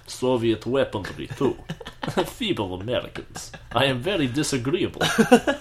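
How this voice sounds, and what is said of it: Stereotypical Russian accent. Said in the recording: “they all have different accents ... I am a stereotypical Russian guy”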